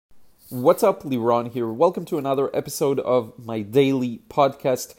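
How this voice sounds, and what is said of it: Hoarse, congested voice. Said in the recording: “My voice is a little hoarse. ... my nose is a bit runny”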